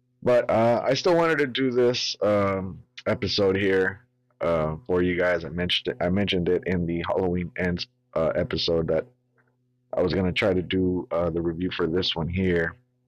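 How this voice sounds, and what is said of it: Raspy, under-the-weather voice. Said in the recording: “I might sound a little weird right now. I'm actually a bit under the weather ... my voice is gonna sound a bit raspy”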